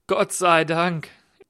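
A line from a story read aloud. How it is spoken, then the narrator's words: Laughing reply. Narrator (German): erwiderte lachend Michael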